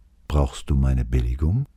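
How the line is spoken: Calm question. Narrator (German): Seine Stimme klang ganz ruhig, als er fragte

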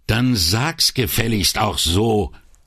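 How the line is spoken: Still quite loud. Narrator (German): entgegnete Brunetti immer noch ziemlich laut

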